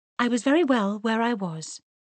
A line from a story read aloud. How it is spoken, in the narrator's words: answered Mary quickly